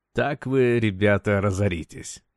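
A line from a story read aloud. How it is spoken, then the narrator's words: Purring under breath. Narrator (Russian): промурлыкал себе под нос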